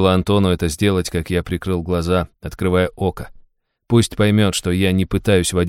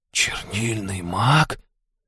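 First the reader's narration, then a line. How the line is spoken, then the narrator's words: Young man whispering. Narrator (Russian): шепотом произнес парень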